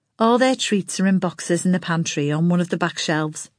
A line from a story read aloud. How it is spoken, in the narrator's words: Maxine said